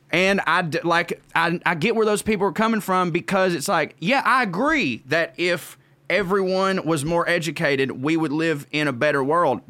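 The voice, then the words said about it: Georgia Southern US accent. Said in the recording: “you can hear this accent. I'm from Marjorie Taylor Greene's District 14 here in Georgia”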